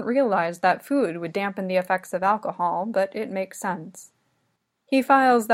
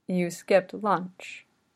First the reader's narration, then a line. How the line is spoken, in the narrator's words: he asks